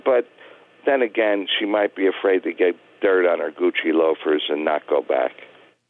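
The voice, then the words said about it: New York accent. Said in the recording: “your New York accent”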